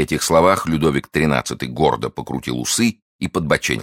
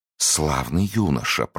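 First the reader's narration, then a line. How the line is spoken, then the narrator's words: King whispering. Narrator (Russian): прошептал король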